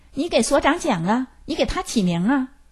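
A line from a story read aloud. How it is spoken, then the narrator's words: Loud protesting old woman. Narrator (Chinese): 有一个老太太不认可，大声说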